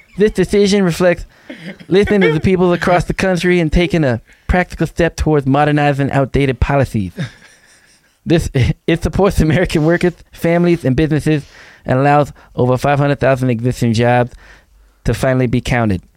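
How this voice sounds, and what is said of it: Mike Tyson impression. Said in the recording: “You sound like Bobby Boucher ... you got to work on your Mike Tyson accent ... We just had to read it in the voice ... how bad my Mike Tyson is ... how bad was my Mike Tyson accent?”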